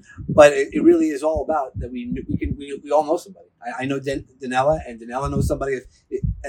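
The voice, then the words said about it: New York accent. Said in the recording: “I have a New York accent.”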